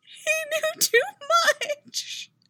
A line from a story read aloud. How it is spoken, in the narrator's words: Rose cries, burying her face into Julika's chest